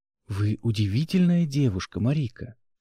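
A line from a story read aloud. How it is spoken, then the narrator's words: Whisper in the ear. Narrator (Russian): шептал он на ушко своей спутнице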